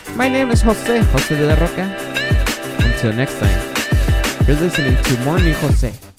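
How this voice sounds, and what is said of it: Strong accent, speaking quietly. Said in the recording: “my accent is so bad. Especially today because I'm trying to be quiet.”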